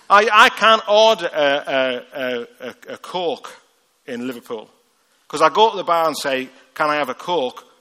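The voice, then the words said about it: Rough Liverpool accent. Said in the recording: “my accent ... even in Liverpool, I've got a rough accent”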